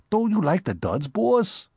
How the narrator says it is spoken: inquired Spike anxiously

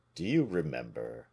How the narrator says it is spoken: said he in a melancholy tone

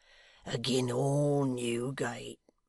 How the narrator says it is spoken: wheezed the hangman under his breath

